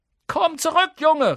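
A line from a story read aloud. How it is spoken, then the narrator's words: Call. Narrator (German): rief sie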